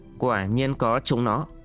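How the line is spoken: Stunned muttering. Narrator (Vietnamese): Bành Sĩ Kiệt sửng sốt lẩm bẩm

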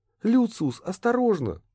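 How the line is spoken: Exclaiming. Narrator (Russian): воскликнула Шалли

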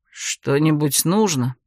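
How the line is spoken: Habitual mumble. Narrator (Russian): привычно пробормотал Хорелий

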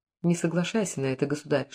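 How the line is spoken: Whispered into the ear. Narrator (Russian): шепнул на ухо фараону казначей

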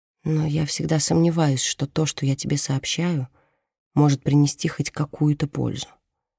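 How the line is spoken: Quiet. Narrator (Russian): тихо произносит она

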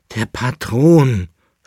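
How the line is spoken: Groaned. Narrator (German): stöhnte der Leibnitzer

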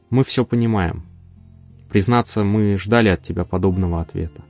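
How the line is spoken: Quiet. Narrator (Russian): Он негромко произнес

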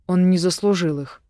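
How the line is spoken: Grumbled. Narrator (Russian): буркнула я

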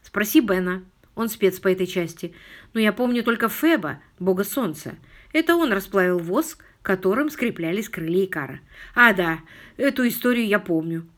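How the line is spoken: Contented sigh. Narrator (Russian): довольно вздохнул Филипп

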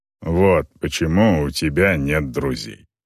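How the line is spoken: Snorting. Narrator (Russian): хмыкнул Грэнд

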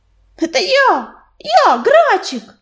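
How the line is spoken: Joyful yell. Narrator (Russian): завопил оруженосец, радостно

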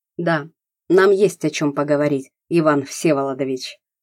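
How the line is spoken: Cold. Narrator (Russian): холодно сказал Савичев

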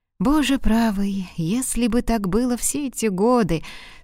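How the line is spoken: Sad, to himself. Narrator (Russian): сказал он себе, грустно улыбаясь

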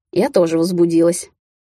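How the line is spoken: Woman laughing into ear. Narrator (Russian): хохотнула мне на ухо леди-наездница

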